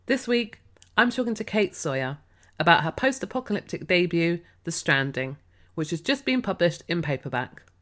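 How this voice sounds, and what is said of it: Slightly croaky voice. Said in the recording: “I sound a bit croaky, ... I'm just recovering from a cold.”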